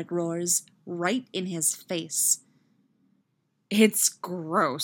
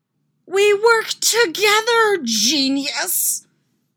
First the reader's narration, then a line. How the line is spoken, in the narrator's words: He screams back